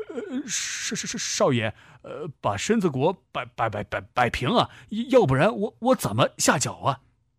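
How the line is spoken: Trembling voice. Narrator (Chinese): 韩小便声音颤抖着说

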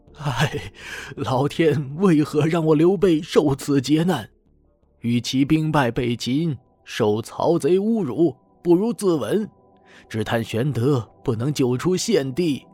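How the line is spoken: Panicked, despairing sigh. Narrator (Chinese): 刘备惊慌失措，仰天长叹

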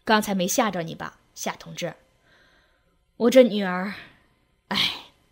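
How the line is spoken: Sighing, apologetic. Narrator (Chinese): 李木旺叹着气……抱歉地说

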